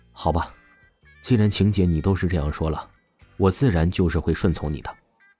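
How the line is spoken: Sighing. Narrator (Chinese): 王峰才是叹息了一口气，说道

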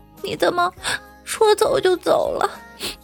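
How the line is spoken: Crying. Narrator (Chinese): 嫦娥就一直哭

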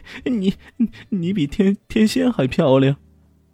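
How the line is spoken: Sneering. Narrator (Chinese): 伊西斯……冷笑道

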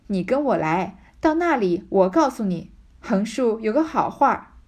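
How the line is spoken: Laughing. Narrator (Chinese): 他嫂子笑道

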